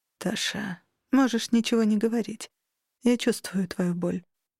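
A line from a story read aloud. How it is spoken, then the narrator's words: Quiet sigh. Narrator (Russian): тихо вздохнула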